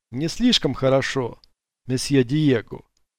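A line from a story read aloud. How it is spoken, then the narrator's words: Plain. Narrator (Russian): ответил Кок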